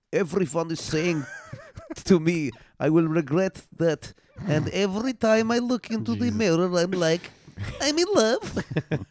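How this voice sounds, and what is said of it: Imitates another person's voice, accent. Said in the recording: “I'm going to do it in her voice ... Not the accent that I just did.”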